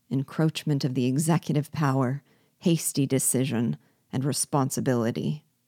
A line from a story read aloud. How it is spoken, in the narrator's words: The two deputies of rival assemblies alone seemed to separate from the general adhesion, and murmured the words